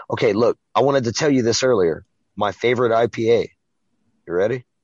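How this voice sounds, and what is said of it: Hoarse, worn-out voice. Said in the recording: “My voice is shot. It's shot.”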